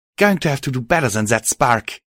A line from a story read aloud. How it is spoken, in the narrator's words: she shouted